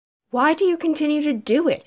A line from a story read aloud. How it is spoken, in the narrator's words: asked indignantly